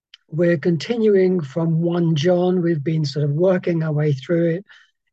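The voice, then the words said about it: Hoarse, gruff voice. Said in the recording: “hoarse this morning. We've had this flu bug, ... so my voice is a bit sort of gruff.”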